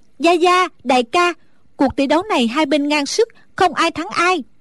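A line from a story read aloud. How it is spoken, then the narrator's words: Relieved sigh, loud call. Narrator (Vietnamese): A Tú thở phào một cái như cất được gánh nặng, nàng lớn tiếng gọi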